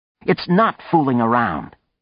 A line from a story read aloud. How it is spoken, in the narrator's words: Anne snapped